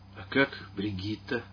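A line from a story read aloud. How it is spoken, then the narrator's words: Quiet awkward question. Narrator (Russian): спросил он тихо, с неловкой улыбкой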